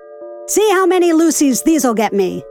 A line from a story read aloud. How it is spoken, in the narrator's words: husky shouts